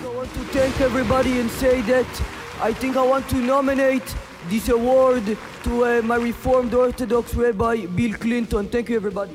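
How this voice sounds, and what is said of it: Fake accent. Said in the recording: “speaking in what was allegedly a fake accent”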